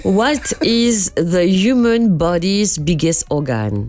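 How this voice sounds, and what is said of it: English with a strong French accent. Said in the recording (French): “Pas mal, avec un accent très français.”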